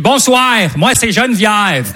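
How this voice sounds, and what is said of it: Québécois French accent. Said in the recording (French): “C'est très bizarre à ce moment-là l'accent québécois, mais c'est un bel accent”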